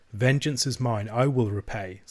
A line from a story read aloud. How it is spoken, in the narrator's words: says the Lord